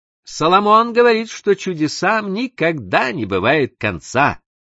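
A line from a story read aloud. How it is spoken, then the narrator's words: Cheerful call. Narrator (Russian): весело крикнула миссис Раут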